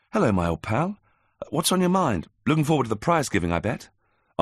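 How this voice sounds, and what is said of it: Chirpy, cheerful character voice. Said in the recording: “in a chirpy voice”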